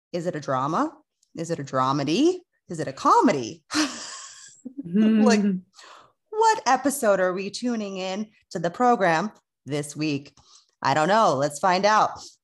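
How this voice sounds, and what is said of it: Radio announcer voice. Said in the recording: “that was very, very radio station tone... I wanted to put on my radio voice.”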